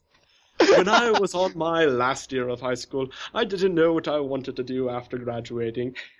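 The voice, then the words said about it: Strangely posh British accent. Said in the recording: “strangely posh my... British accent”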